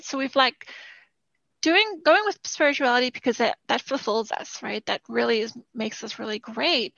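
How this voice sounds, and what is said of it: Strained, fading voice. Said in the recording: “I'm losing my voice a little bit there.”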